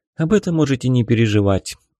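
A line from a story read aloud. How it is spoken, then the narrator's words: Calmer now. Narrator (Russian): уже более спокойно произнесла женщина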